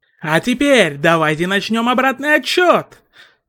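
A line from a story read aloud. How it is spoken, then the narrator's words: Shouting. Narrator (Russian): выкрикнул Сущий Миг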